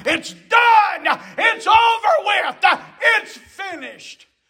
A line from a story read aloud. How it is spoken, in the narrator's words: he cried